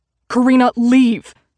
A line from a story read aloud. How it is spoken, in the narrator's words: my brother spat